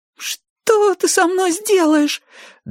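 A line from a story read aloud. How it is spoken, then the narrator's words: Trembling, faltering. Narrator (Russian): дрожа пролепетал потрошитель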